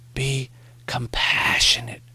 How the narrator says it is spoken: Morrie whispered

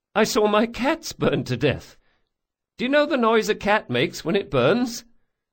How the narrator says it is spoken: Another damn giggle

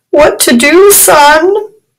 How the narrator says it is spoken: Rashid pleaded piteously

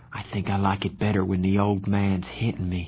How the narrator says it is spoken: Johnny sighed

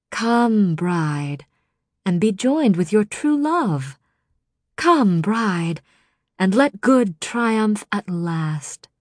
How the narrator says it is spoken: Ianthe said smoothly

